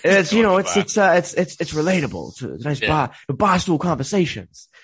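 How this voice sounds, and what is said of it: Usual voice. Nothing is said of it.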